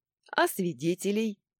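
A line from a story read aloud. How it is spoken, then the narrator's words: Chuckled. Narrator (Russian): хохотнул тот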